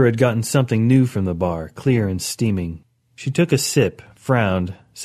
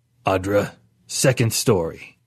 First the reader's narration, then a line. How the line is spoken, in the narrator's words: cleared his throat, a rumble like rocks falling, and said